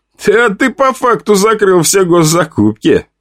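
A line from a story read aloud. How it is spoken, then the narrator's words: Loud laughter. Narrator (Russian): расхохотался тот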